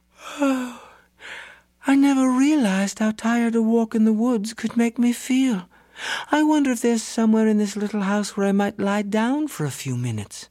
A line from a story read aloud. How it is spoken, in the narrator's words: she stretched and yawned and said